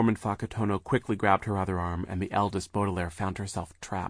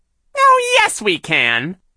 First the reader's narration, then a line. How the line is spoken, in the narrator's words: Shirley said in her silly high voice